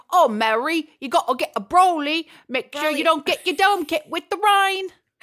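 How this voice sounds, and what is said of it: Bad Cockney Bert from Mary Poppins. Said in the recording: “Cockney accent. Like a really bad Bert from Mary Poppins ... This is the Bert Mary Poppins accent.”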